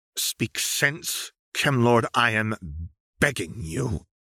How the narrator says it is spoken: she said through her teeth

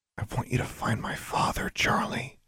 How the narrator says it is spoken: she whispered

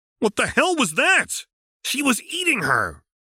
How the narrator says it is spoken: Terezi yelled defensively

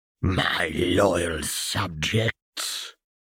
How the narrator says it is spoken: Voldemort uttered, his voice a thousand icy fingers brushing down Vernon's spine

